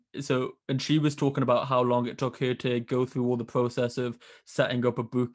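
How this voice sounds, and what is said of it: Northern English accent. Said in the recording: “I love when Northern people say book, book. ... my accent getting ridiculed by Southerners”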